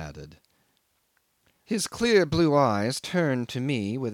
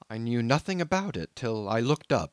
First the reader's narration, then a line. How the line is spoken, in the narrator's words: he explained hastily